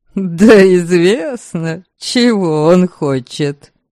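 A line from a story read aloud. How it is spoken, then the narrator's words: Laughing. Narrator (Russian): смеялся видение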